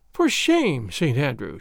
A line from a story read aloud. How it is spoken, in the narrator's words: she said, shaking her head with a playful sigh